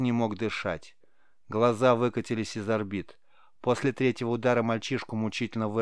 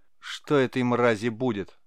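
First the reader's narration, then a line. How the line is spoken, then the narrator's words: Angry mutter. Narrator (Russian): злобно пробубнил тот, кого звали Фейгар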